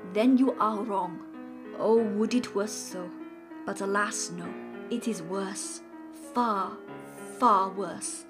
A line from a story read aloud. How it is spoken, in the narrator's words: said solemnly